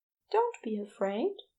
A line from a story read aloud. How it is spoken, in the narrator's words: he said softly